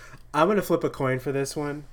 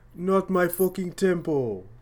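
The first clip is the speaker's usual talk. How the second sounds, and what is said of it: Bad impression of another voice. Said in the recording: “my awful Sebastian impression ... Was it a bad Sebastian impression or a bad J.K. Simmons impression? The answer is both.”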